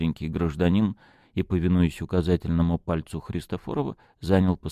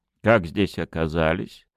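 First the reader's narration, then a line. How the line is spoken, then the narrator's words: Irritated question. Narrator (Russian): раздраженно спросил Христофоров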